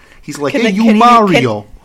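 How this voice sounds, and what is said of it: Put-on Brooklyn accent. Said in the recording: “Is he still going to have his Brooklyn accent?”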